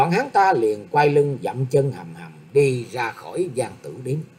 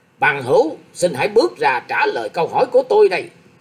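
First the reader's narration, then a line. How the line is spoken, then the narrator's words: Impatient loud shout. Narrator (Vietnamese): Hạ đơn nghe thế không còn làm sao nhẫn nhịn được, đưa tay chỉ thẳng vào người thiếu niên ấy quát to lên rằng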